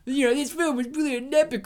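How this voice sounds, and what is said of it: Put-on New York accent. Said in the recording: “imagine him with a New York accent.”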